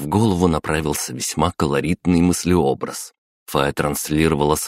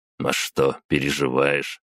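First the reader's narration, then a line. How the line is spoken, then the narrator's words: Snort. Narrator (Russian): хмыкнул я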